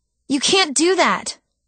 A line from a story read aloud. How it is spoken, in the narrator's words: cried